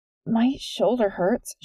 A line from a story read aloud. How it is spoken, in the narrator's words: she finally mumbled